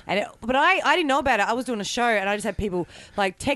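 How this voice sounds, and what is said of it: Australian accent. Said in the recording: “There's nothing worse than the Australian accent”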